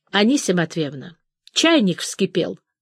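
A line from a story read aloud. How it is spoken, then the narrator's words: Stern warning. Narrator (Russian): строго и предостерегающе говорит Саша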